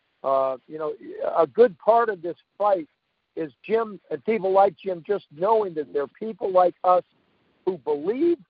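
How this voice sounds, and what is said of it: Strained, fading voice. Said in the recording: “losing my voice here. I've had a little bit of a cold this week”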